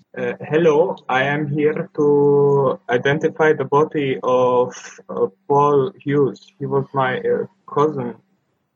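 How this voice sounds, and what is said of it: Put-on German accent. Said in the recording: “I'll throw on my German accent... I'll tell him I'm his cousin from Germany”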